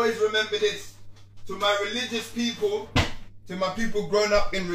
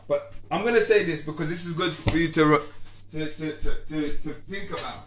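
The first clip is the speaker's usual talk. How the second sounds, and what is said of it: Stuttering, repeating words. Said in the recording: “Forgive me if I'm stuttering.”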